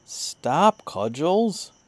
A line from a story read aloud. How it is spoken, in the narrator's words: exclaimed as soon as he had overcome his surprise